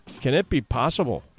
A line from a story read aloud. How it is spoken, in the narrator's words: one said